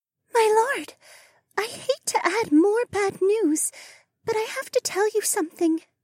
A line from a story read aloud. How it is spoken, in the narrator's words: Mariah whispered